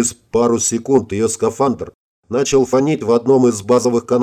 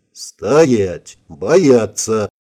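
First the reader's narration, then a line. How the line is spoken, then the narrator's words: Growled. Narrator (Russian): рыкнул я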